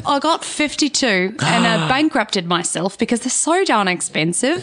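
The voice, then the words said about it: Hard-to-place put-on accent. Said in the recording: “I love that accent ... I can't place it. ... Is it like an organizer accent?”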